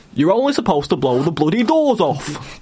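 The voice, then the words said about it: Cockney accent impression. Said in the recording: “Cockney ... Michael Caine ... There was more cheek action”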